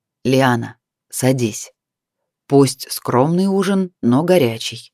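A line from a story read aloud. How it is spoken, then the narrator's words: Velvety voice. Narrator (Russian): Вейх бархатным голосом проговорил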